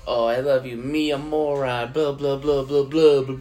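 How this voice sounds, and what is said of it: Imitates another person's voice. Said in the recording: “my Adam Sandler impression in that vampire movie”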